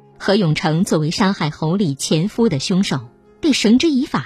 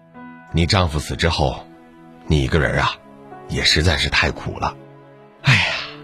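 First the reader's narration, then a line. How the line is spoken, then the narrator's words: Long sigh. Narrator (Chinese): 他长长的叹了一口气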